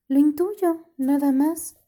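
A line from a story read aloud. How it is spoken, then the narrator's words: Sighing reply. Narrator (Spanish): contestó Clara, suspirando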